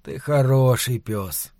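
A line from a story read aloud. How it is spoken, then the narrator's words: Tender repetition. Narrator (Russian): нежно твердил он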